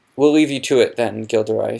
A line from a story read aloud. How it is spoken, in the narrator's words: said Professor McGonagall